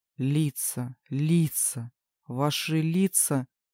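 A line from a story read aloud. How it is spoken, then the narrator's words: Incoherent muttering. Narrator (Russian): бормотал Дэвид, не в силах связать предложение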